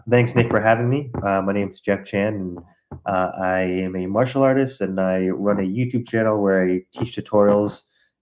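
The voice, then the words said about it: Sick, rough-sounding voice. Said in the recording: “Excuse my voice. I think I have COVID”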